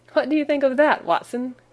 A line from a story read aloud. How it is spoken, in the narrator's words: cried in high glee with satisfaction